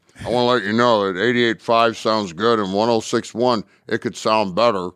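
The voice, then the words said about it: Imitates another person's voice. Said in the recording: “that's my imitation of Dad”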